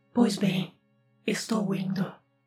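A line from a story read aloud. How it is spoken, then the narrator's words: Deep powerful demon shout. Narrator (Portuguese): com uma voz profunda e poderosa, o demônio gritou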